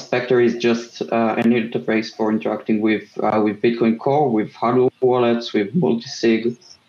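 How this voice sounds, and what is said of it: Israeli accent. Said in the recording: “the Israeli accent.”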